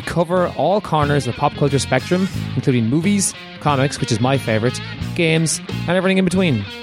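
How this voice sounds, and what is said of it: Irish accent. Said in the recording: “our own unique mix of games, trivia, a little insight, all wrapped up in Irish accents”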